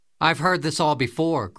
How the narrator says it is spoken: Grandma shouted

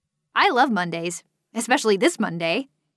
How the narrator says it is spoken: Avery exclaimed

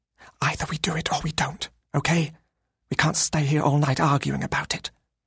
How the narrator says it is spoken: I whispered

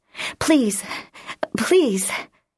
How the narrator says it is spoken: she gasped

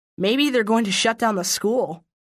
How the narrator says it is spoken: he said

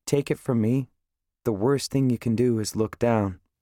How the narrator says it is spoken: In my regular non-preacher voice, I say, as calmly as possible

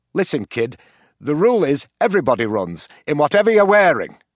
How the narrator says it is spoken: snapped the teacher

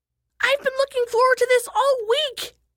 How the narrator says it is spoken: shrieked Isha

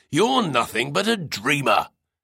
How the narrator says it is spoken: He barked like a furious mastiff

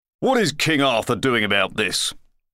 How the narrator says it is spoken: demanded the editorial crier pompously

